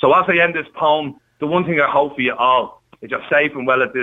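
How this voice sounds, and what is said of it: Usual voice. Nothing is said of it.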